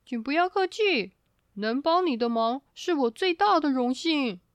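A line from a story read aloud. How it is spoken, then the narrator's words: Cheerful, giggling. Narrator (Chinese): 雪人笑嘻嘻的回答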